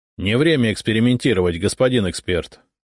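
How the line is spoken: Sharp remark. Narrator (Russian): резко заметил Зотов

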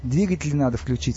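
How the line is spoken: Plain. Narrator (Russian): сказал Стас

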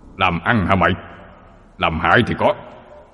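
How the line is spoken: Harsh old man's voice. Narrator (Vietnamese): Ông già gằn giọng

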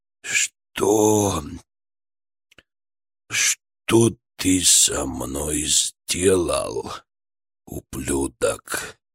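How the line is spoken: Hoarse, weak, broken voice. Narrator (Russian): Голос был чужим, хриплым, слабым, надломленным

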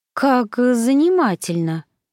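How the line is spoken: Anxious drawl. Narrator (Russian): протянула я, чувствуя, как в груди поднимается тревога

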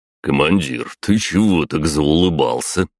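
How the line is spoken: Smirking snort. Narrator (Russian): хмыкнул Батуми

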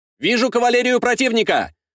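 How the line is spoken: Shouted. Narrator (Russian): выкрикнул десятник

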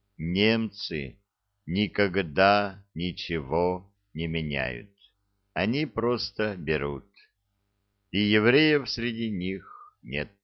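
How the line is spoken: Slow, deliberate. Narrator (Russian): медленно и раздельно произнес

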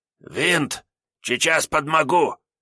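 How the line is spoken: Hoarse strained reassurance. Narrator (Russian): обнадежил его второй вор хриплым, сдавленным голосом

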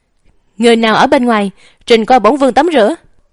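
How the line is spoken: Loud shout. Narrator (Vietnamese): lập tức hét lớn một tiếng

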